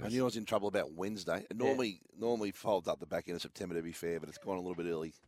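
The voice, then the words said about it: Hoarse, nearly lost voice. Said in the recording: “when did the voice go ... my voice is gone ... I know it's hard to listen to”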